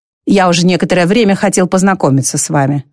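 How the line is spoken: Plain. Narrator (Russian): сказал Холмс

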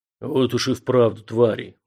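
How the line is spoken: Giant's grim hiss. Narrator (Russian): мрачно прошипел гигант

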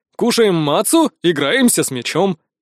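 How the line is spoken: Agreeing, laughing. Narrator (Russian): поддержал меня Дитрих и засмеялся

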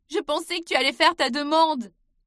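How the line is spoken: Shouting. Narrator (French): cria enfin Emily

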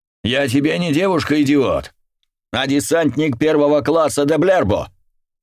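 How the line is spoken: Bark. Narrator (Russian): рявкнула она

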